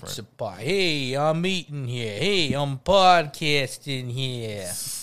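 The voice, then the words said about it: Mario-style New York accent. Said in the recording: “Did he do an Italian accent? Or he sounded like he was from New York, didn't he? ... This accent?”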